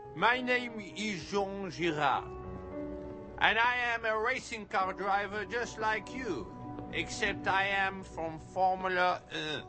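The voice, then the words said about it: Put-on French accent. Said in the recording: “you sound like a dog with peanut butter on the roof of your mouth. ... my accent. I am French.”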